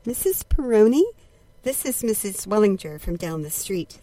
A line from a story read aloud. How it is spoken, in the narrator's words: said the neighbor urgently